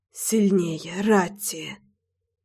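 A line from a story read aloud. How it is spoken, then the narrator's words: Ragged whispered pleading. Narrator (Russian): Рвано, шепотом умолял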